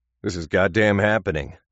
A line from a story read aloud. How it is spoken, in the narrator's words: he growled again